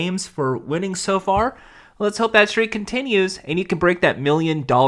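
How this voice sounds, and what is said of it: Usual voice. Nothing is said of it.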